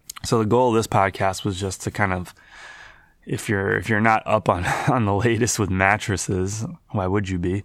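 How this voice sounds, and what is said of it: Hoarse, congested voice. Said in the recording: “I'm sick. ... My voice is hoarse. My nose is stuffy.”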